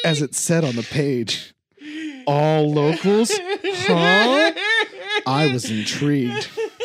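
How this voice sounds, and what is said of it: Spooky storytelling voice. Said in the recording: “my spooky voice”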